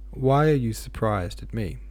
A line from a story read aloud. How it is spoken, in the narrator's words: Ivan asked abruptly and sullenly